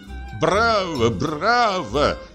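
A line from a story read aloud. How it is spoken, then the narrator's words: Shouting. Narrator (Russian): кричал он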